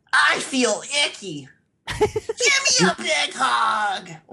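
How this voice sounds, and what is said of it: Leper gnome character voice. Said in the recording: “my leper gnome impression ... That's really good ... Oh my god, that was exactly him.”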